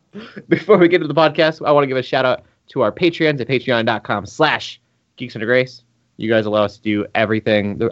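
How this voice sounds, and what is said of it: Smooth radio announcer voice. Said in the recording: “I got like a real radio voice going on. It's not intentional.”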